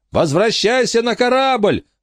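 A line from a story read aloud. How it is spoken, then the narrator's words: Shouting. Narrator (Russian): закричал Майкл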